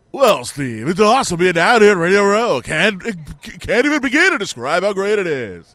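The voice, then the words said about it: Fake stock radio-host voice. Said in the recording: “everyone has to do the same voice ... you have to do a fake voice. And like everyone has to sound the same.”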